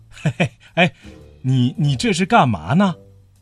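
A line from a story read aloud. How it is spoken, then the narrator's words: Laughing. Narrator (Chinese): 敏夫老师笑着说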